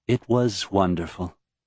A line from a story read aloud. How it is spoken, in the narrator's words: Serene replied